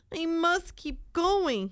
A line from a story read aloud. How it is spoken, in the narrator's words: panted